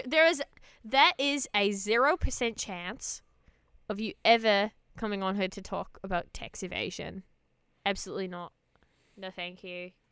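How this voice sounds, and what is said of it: Put-on Australian accent. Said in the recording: “We could do an Australian accent for the rest of the podcast. ... We do Australian accents for the rest of the podcast, yeah.”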